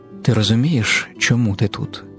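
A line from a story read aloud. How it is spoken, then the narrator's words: Gentle airy female voice. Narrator (Ukrainian): Її голос ніжно вивітрив його запитання з приміщення, ніби вітер, що здмухує пилюку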